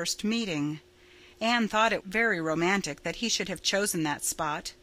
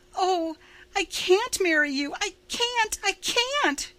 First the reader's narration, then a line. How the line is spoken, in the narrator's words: she cried wildly